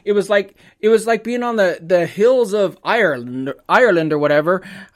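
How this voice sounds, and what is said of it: Put-on Irish accent. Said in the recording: “I don't know where that accent came from, but it was like on the hills of Ireland. What am I, a leprechaun?”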